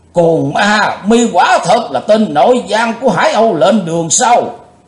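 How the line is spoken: Thunderous shout. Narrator (Vietnamese): Đồng Tăng du hiệp quát tợ như sống

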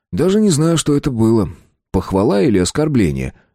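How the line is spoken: Snorting. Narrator (Russian): хмыкнул я

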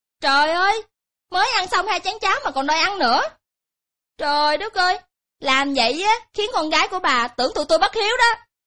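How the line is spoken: Loud scolding. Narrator (Vietnamese): ba nàng dâu lớn tiếng quát

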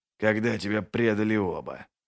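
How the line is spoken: Unexpected grumble. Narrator (Russian): проворчал он неожиданно для самого себя

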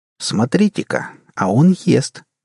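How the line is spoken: Sarcastic. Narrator (Russian): язвительно произнес Джек

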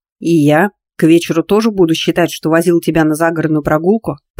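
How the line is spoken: Near growl. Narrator (Russian): почти прорычал Дмитрий

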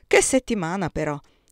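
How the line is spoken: Sighing. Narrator (Italian): si permise di sospirare Hubert

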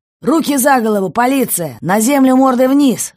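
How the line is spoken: Shouting. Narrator (Russian): закричал

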